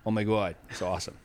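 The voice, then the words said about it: Put-on Boston accent. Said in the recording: “If you want the Boston accent, I can do it for you. ... It's hard not to swear when you do the Boston accent”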